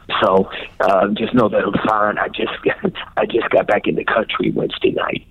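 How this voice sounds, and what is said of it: Rough, hoarse voice. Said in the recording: “The reason why you hear my voice a little rough is I just did 4 concerts in 2 days.”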